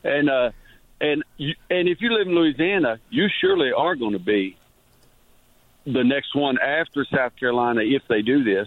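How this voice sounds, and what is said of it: Southern Louisiana drawl. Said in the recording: “your great Louisiana Southern accent versus the Kentucky accent ... that was a great, great Louisiana draw there”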